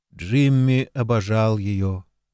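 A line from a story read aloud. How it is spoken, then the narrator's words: Dejected. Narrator (Russian): уныло ответил Марк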